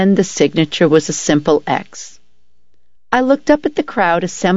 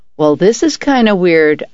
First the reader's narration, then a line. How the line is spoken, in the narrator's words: I chuckled